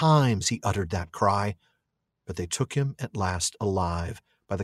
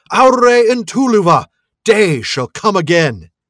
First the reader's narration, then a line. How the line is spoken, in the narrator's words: Húrin cried